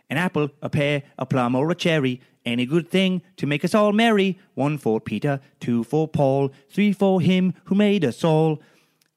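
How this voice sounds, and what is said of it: Poor Dickensian British accent, sung. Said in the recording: “Now it's British ... that was like the shittiest uh, Dickens esque British accent while trying to do an Irish accent. ... that was horrible.”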